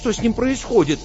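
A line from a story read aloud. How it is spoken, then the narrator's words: Frightened question. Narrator (Russian): испуганно спросил кабанчик Фуфу у профессора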